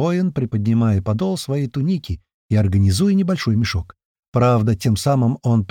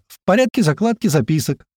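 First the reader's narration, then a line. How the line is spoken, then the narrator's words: Loud laughing, decisive. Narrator (Russian): громко смеясь, решительно пришла ему на помощь Феодора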